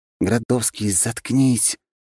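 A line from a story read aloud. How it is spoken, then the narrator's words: Hissed whisper. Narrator (Russian): прошипел я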